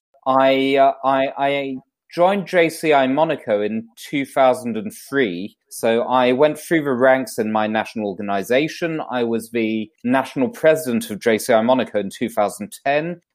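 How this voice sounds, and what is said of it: British London accent. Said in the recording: “I was originally born in London, UK, which you may be able to tell by my accent.”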